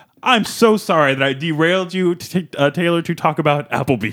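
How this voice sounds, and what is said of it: Usual voice. Nothing is said of it.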